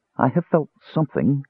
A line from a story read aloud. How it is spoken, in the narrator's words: Crisania murmured breathlessly